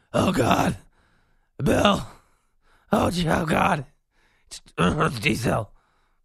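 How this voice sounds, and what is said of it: Exhausted, groaning near-dying voice. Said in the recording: “You sounded like you were dying. You sounded like you were dying.”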